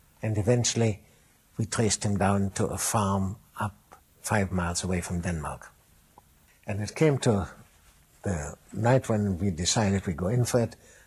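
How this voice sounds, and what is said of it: Warm voice with German accent. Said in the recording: “There was ... warm voice, German accent, charming, funny, familiar.”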